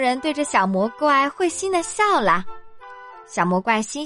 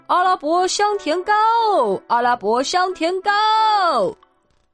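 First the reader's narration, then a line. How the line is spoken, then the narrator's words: Merchant's hawking cry. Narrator (Chinese): 商人叫卖道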